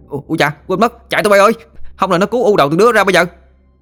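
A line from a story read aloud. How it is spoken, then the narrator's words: Yelping cry. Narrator (Vietnamese): Nó la lên oai oái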